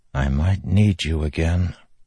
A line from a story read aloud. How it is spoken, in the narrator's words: Kaladin whispered